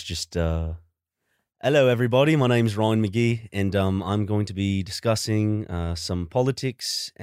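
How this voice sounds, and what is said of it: Attempted British accent, sounds Australian. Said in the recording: “Give me your best British ... that sounds Australian.”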